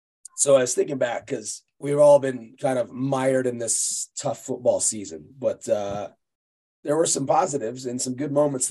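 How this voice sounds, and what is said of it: Congested, strained voice from cold. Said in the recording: “I've got a little bit of a cold, so my voice is not great right now. So if I sound like I need oxygen, I probably do.”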